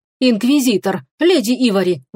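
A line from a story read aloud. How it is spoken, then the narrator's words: Exclamation. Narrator (Russian): воскликнул Эдан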